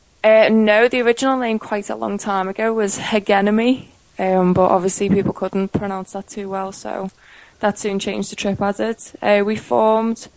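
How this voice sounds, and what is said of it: UK accent. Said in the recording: “UK accents”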